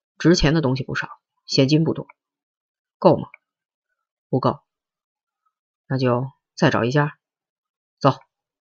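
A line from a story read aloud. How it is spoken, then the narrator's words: Low voice. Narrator (Chinese): 保安低声问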